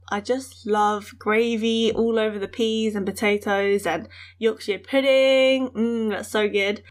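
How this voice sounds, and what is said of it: British accent. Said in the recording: “something else that's really British about me is my accent.”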